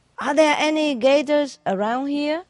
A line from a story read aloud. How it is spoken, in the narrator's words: the tourist shouted